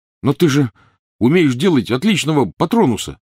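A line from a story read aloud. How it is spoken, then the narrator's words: Protesting exclamation. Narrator (Russian): протестующе воскликнул Рон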